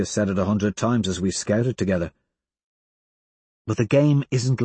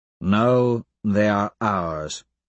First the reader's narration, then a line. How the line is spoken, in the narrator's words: I drawl